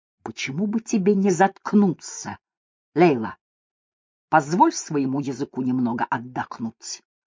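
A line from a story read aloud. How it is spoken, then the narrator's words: Vicious hiss. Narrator (Russian): Микки злобно прошипел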